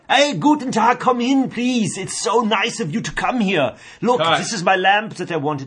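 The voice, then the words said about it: Put-on German accent. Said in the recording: “do the whole thing in a German accent ... I can hear his accent in the boom”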